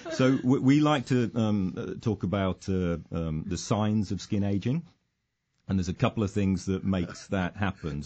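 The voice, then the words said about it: Speaks with a noticeable accent. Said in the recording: “You got that accent... what a beautiful accent.”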